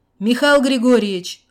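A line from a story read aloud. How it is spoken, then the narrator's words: Shout. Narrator (Russian): крикнул начальник охраны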